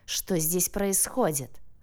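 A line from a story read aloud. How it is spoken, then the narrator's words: Leader's growl. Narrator (Russian): зарычал вожак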